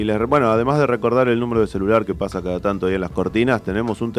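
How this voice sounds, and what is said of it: Usual voice. Nothing is said of it.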